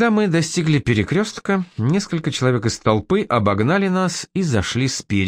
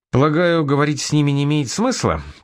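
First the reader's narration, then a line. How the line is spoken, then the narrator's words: Carefree tone. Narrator (Russian): поинтересовался я самым беспечным тоном, на какой был способен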